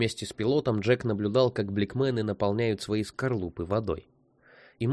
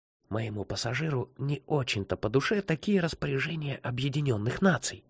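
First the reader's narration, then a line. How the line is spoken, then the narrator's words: Whisper in the ear. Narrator (Russian): прошептал молодой пилот Джеку на ухо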